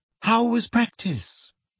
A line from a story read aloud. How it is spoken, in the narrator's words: asked Hermione, rather coolly